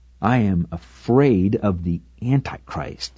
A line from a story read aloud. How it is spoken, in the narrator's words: she replied